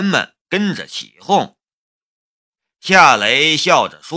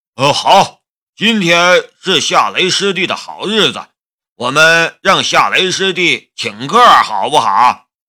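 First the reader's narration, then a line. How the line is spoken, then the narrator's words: Loud. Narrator (Chinese): 鲁胜便大声的说道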